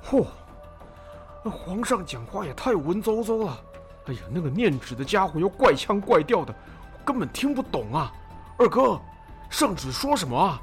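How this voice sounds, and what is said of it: Quiet, grumbling complaint. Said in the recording (Chinese): “一边小声抱怨”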